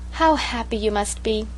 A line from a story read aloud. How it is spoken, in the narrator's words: sighed Sarah Ray romantically